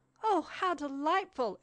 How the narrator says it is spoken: exclaimed he

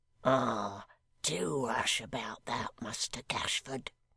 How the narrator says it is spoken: said the hangman in a low voice

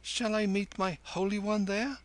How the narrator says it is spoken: Kim whimpered

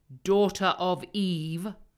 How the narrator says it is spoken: said Aslan in a graver voice

